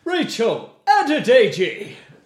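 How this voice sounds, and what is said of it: Very loud TV announcer impression. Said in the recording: “the only impression I can do is the X Factor guy ... I need to do it dead loud”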